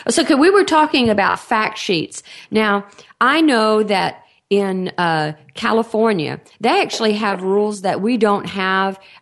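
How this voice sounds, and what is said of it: Texan accent. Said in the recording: “I, am in Texas. Uh, obviously, you can tell by my accent”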